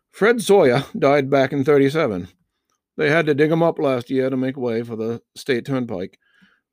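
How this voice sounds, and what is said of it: Put-on Maine Yankee accent. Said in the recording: “It's Maine Yuma ... people like the accent ... I'm going to get my accent on.”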